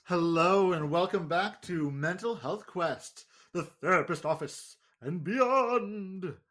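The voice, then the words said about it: Put-on announcer voice. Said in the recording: “That was my really cool announcer voice.”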